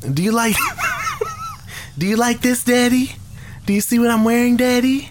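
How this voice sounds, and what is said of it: Imitates a girl on the phone. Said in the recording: “I'll play the yeah. random girl on the phone”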